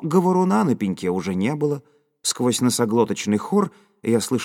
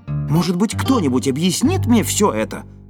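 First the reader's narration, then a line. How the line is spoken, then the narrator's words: Loud question. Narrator (Russian): громко спросил я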